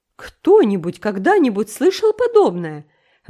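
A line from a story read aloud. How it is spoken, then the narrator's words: Bewildered exclamation. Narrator (Russian): В недоумении воскликнула Марила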